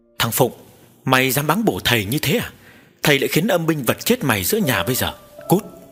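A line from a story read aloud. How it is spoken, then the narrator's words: Flustered stammering old man. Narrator (Vietnamese): lão thầy cúng lúng túng lắp bắp nói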